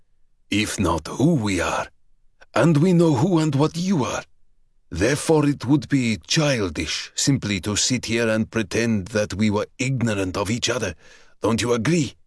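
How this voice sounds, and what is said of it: Deep dark Russian accent. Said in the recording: “in a voice deep as it was dark, whose Russian accent he made no attempt to disguise”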